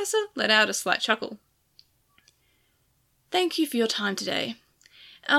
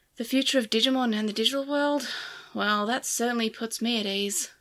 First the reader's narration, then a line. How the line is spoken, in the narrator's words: Yulin said dryly